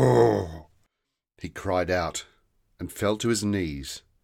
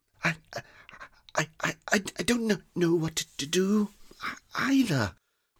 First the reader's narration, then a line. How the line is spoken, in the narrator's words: whispered Quilby